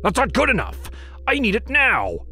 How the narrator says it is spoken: he barked

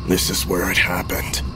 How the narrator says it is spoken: he said softly, almost lost beneath the cacophony of the radio and the rattling car

